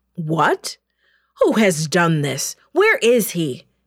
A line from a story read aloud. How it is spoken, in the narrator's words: the king shouted angrily